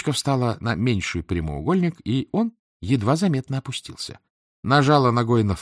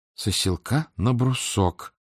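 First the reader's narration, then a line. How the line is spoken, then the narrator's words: Mutter while bending. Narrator (Russian): пробормотала она, нагибаясь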